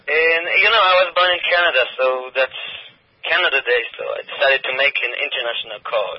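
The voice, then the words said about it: Israeli-accented English. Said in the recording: “You sound like you have a bit of a French accent ... my bad accent ... He had that kind of French accent. That was an Israeli. ... accent”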